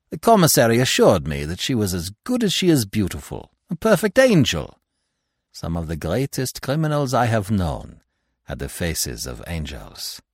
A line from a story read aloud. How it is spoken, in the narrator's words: remarked Poirot cheerfully